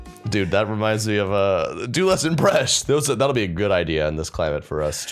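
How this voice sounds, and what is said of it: Usual voice. Nothing is said of it.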